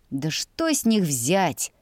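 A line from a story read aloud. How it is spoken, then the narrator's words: Scoffing snort. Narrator (Russian): хмыкнул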